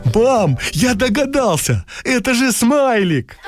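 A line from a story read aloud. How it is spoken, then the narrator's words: Joyful exclamation, child. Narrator (Russian): Кирюша радостно воскликнул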